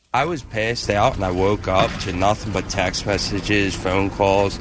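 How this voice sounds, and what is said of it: Philadelphia accent. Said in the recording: “he's from Philly ... he's got the accent. ... Worst accent in the world next to Boston.”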